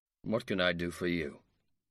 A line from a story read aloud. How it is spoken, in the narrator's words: he inquired coldly